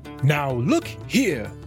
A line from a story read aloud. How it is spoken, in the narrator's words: cried the rat hotly